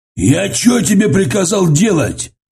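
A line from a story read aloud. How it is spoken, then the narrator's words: Yelling, losing control. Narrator (Russian): заорал он, забыв, что в присутствии Брежнева стоит держать себя в руках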